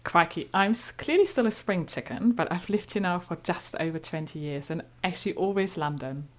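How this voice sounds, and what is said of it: Slight German accent. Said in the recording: “I'm originally from Germany, as you might gather by my slightly German accent.”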